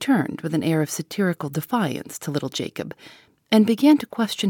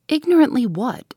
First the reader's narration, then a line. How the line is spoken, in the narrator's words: inquired Miss Halcombe sharply